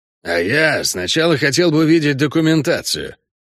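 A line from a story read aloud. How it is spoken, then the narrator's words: Unfriendly grumble. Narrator (Russian): буркнул Шакир неприветливо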